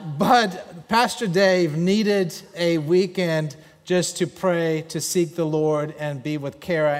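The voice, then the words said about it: German accent. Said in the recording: “what you're hearing is a German accent.”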